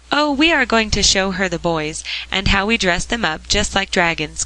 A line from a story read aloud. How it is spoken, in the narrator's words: cried Polly